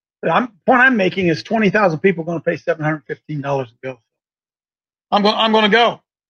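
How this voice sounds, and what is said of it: Yelling, loud raised voice. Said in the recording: “I guess I'm yelling”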